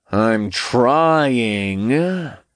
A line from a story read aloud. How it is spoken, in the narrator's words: Asmodeus grumbled